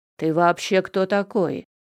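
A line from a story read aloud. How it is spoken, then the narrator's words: Menacing question. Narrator (Russian): грозно поинтересовался Данил Никитич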